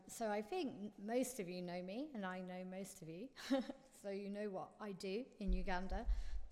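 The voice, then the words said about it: Unwell voice with some coughing. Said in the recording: “excuse my voice. I'm still coughing a little bit”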